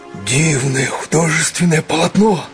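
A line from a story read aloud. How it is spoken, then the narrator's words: Whispered shout. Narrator (Russian): шепотом закричал Летика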